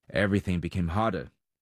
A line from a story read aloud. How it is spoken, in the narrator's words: he said